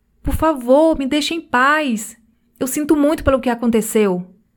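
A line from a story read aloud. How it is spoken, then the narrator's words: Shouting. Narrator (Portuguese): ele gritou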